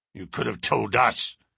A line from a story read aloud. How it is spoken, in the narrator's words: growled Mr